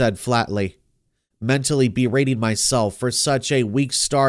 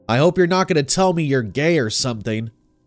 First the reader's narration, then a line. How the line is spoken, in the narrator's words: he said gruffly, a note of humor in his voice